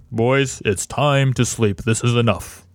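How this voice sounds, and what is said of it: Stern dad voice. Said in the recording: “I use my dad voice.”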